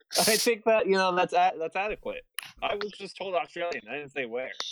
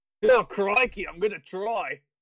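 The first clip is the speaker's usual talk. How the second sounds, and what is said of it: Australian accent, Steve Irwin impression. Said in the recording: “Can you do an Australian accent? ... That's just Steve Irwin. ... That's Australian, isn't it?”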